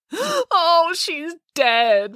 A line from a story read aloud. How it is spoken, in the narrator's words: wailed Matilda